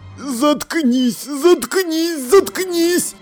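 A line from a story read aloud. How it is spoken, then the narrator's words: Moaning. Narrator (Russian): Простонал сержант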